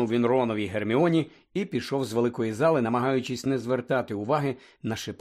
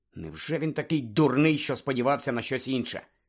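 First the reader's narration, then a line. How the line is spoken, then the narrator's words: Angry inner thought. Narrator (Ukrainian): думав Гаррі сердито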